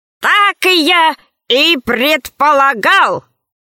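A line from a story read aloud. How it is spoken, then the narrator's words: Said loudly. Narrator (Russian): ученый громко сказал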